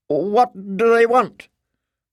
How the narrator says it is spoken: asked nervously

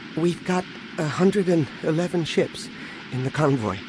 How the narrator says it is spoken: Anakin said, coming up behind his father nervously, not really knowing what to say or do

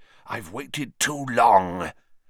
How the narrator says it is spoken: he hissed

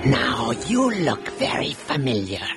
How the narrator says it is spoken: he rasped

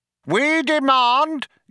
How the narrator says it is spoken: yelled Vroom Fondle

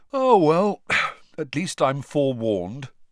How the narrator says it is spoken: Ron yawned

